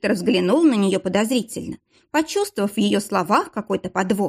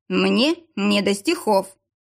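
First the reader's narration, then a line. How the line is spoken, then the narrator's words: Grumbling. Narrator (Russian): проворчал Виктор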